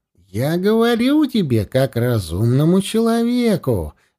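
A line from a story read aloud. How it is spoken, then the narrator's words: Soft addition. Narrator (Russian): мягко добавил наместник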